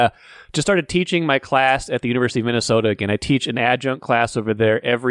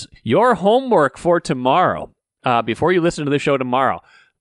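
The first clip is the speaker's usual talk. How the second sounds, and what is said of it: Exaggerated stern teacher voice. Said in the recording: “in my extreme teacher voice,”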